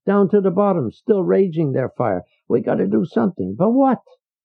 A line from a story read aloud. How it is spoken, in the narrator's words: Leo shouted